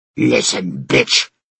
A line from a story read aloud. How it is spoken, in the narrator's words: Dorna growled